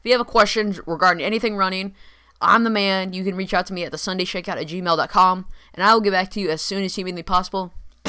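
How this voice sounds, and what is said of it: Slightly raspy voice. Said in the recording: “my voice sounds a little raspy.”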